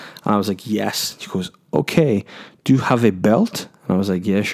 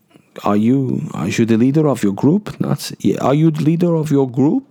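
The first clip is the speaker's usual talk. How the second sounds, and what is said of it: Put-on Dutch accent. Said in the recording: “that was the worst Dutch accent ever. Let me try again.”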